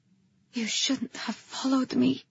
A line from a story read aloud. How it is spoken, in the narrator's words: I whispered